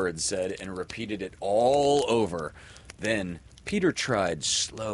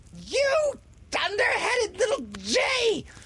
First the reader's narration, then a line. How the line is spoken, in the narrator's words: She screamed